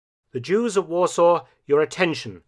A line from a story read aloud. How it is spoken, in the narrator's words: one of the SS would shout along the length of the platform